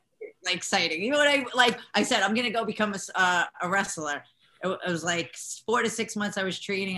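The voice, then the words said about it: New York Italian American accent. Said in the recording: “that New York Italian American accent”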